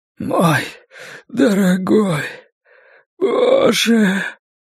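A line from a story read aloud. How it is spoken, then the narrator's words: Hoarse wheeze. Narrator (Russian): прохрипел Ллойд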